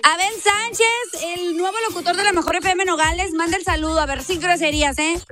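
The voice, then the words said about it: Radio announcer voice. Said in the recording (Spanish): “con voz de locutor”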